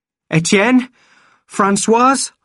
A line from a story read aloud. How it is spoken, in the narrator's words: shouted